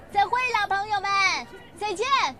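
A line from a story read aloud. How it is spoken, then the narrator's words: Loud. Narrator (Chinese): 他大声地对我们说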